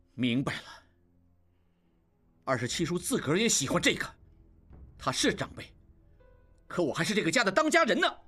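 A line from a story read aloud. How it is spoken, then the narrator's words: Angry. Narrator (Chinese): 应季怒道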